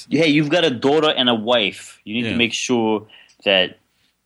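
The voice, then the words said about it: Put-on accent. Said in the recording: “I don't know why I started talking in that accent.”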